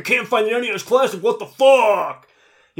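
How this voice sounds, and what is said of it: Imitates another person's voice. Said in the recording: “is that what they sound like? ... That was actually his Bill Gates impression.”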